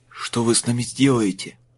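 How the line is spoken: Hoarse question. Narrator (Russian): хрипло спросил тот

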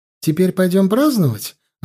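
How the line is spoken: Joyful female question. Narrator (Russian): радостно спросила Джоан

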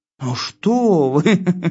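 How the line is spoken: Laughing goat. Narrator (Russian): засмеялась коза

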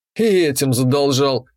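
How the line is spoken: Smirking snort. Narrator (Russian): хмыкнул я

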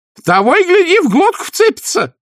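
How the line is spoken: Old nanny's wailing shout. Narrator (Russian): завопила нянюшка

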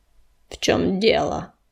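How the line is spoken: Cold question. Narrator (Russian): холодно спросил Камнесказ

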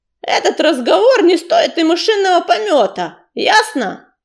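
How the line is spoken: Yelling. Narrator (Russian): заорал Чернозвезд

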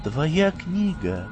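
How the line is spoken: Quiet, smiling. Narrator (Russian): тихо улыбнулась ему Саша

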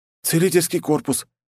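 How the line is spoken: Frightened near-whimper. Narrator (Russian): чуть не проскулил паренек в балахоне, испуганно

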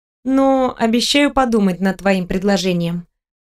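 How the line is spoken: Plain. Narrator (Russian): ответила я

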